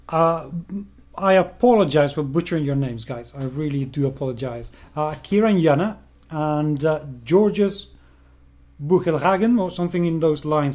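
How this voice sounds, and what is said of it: Speaks with a foreign accent. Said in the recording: “I am sorry, it's my accent.”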